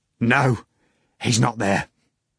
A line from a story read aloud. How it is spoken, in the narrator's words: He exclaimed miserably